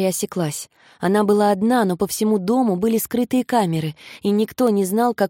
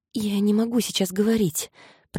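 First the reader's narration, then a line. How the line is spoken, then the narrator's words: Whisper. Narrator (Russian): прошептала она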